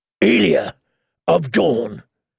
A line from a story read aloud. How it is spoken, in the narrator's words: Sir Gregor say, his deep voice booming within the helm